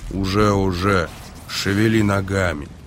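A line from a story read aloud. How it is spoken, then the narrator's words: Muttered. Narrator (Russian): Эйс буркнул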